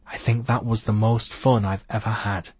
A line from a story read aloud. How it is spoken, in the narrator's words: she whispered